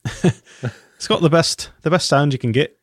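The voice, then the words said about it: Put-on Irish accent. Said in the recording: “I'll try Irish... do an Irish impersonation.”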